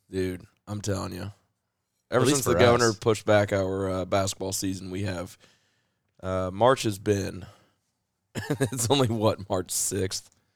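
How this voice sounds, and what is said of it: Slightly hoarse voice. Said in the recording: “my voice is kind of hoarse a little”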